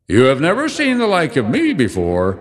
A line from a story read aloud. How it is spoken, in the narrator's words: exclaimed the spirit